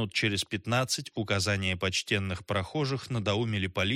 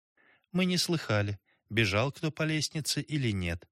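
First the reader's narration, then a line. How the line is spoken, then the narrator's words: Soft. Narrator (Russian): мягко сказала Гелли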